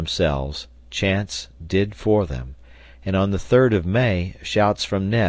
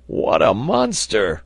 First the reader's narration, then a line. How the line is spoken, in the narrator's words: cried Neb